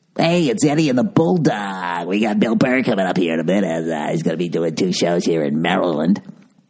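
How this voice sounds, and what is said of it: Bad morning radio DJ voice. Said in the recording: “With your fucking morning DJ voice. ... sorry, that was a bad morning DJ voice.”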